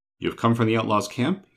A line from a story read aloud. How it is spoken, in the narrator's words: he said with his voice trembling